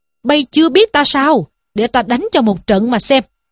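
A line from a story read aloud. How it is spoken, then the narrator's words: Furious roar. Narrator (Vietnamese): Trí Thâm cũng hầm hầm giận dữ quát lên rằng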